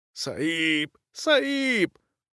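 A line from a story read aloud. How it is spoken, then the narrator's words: Hoarse, breathless rasp. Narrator (Russian): прохрипел сингалезец и, тяжело дыша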